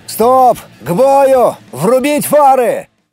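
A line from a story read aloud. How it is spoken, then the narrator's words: Yelling. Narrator (Russian): заорал я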